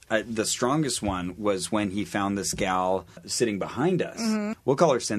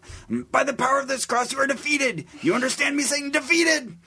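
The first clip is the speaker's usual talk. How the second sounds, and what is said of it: Yelling imitation of another person's voice. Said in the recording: “kind of yells things with his cross ... my throat's going to hurt just from doing a Bob Larson impersonation”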